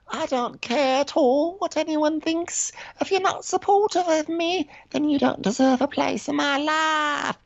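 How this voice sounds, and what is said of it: British accent. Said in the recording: “she has a cute little British accent ... that British accent does really go far”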